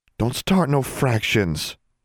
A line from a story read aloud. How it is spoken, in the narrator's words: Constance pleaded